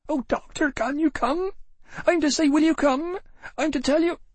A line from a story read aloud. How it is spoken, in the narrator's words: her voice reached me as if from an impossible distance, broken up by puffs and squeals